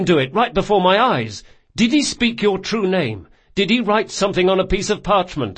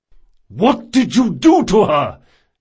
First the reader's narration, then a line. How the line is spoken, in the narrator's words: bellowed Reynard